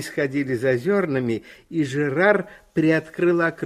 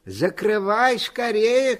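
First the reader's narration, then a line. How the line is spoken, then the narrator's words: Shouted, grandfather. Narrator (Russian): крикнул дедушка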